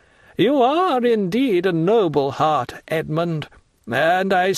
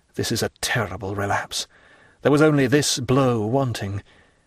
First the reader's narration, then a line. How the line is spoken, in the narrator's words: murmured Edmund to himself